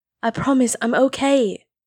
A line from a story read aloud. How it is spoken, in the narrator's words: he said over the sound of her sobs